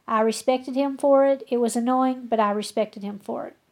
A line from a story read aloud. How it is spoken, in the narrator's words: she said